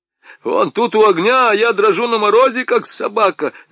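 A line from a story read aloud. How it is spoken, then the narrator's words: Stung furious yell. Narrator (Russian): заорал солдат, как ужаленный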